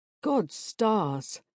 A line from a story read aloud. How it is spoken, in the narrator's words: drawls a light male voice from the doorway